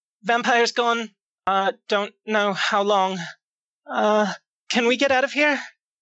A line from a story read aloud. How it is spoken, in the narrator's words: She's just going to shout out